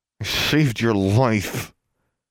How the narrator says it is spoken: said, through clenched teeth

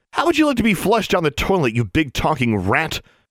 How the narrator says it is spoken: Alexandra snapped at the Jarvie

